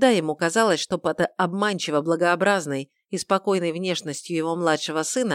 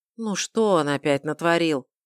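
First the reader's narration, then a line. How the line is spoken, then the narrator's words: Weary sigh. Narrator (Russian): Устало вздохнул император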